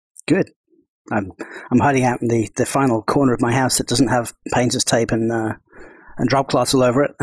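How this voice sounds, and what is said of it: Soft British accent. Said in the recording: “your docile tones of British oh, yes. accent. Yes, not voice synthesized either.”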